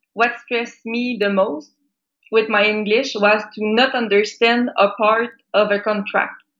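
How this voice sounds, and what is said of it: French Canadian accent. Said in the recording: “as you can heard, I'm a French Canadian ... I have an accent”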